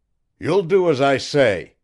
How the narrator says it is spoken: the masked man cried

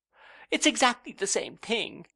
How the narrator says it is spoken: cried Dora, and she evidently thought so, for she wept most grievously

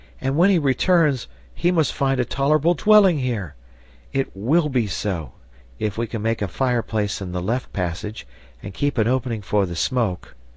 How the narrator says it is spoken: cried Herbert

